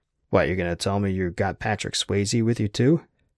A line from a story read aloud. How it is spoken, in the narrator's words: Jack snorted even more derisively